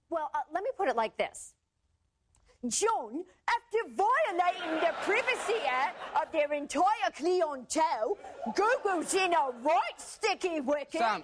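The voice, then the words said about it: Put-on British accent. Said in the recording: “you don't need to speak in a British accent.”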